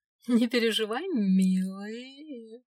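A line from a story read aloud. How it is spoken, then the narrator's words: Chuckling. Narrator (Russian): хохотнула другая жена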